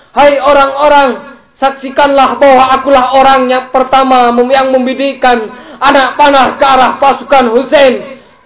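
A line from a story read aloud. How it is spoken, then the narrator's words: Shouting. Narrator (Indonesian): Umar berteriak lagi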